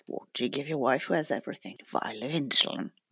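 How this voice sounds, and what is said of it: Uncanny Jeremy Irons impression. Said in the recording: “she did this uncanny Jeremy Irons impression ... can you give us that impression?”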